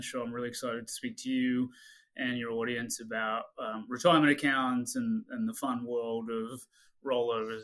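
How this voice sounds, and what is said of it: Slight Australian accent. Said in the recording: “as you can probably tell from the slightly weird accent, I grew up outside of the U.S. I actually grew up in Australia”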